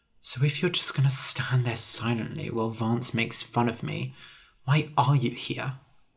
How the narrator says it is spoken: I said quietly

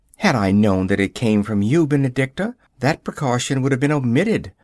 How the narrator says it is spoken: I answered

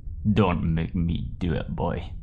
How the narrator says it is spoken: growled Dank smolderingly

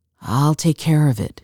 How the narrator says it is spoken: all but moaned

